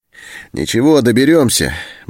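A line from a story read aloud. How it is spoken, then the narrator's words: Cheerful. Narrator (Russian): бодро сказал Антон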